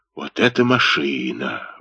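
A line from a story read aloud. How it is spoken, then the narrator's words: Strained, forced out. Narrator (Russian): выдавил джипа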